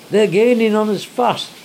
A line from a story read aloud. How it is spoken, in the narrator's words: cried the engine driver